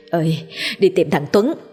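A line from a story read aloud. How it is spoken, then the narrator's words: Panting, irritated old woman. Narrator (Vietnamese): Bà Tám thở hổn hển trả lời giọng bực dọc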